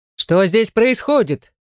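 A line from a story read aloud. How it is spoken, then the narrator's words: Distant booming angry voice. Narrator (Russian): разносится вдруг громогласное зло со стороны поляны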